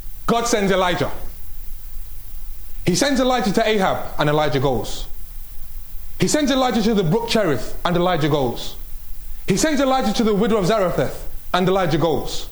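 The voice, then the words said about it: Fast-speaking British accent. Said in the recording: “I've got a British accent. And I know I speak quickly”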